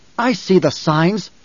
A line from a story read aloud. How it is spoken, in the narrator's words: Jessica snapped